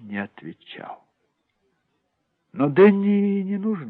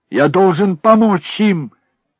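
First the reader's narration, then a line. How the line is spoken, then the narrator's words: Shout. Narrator (Russian): закричал Дэнни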